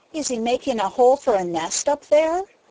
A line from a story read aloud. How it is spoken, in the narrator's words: asked Peter eagerly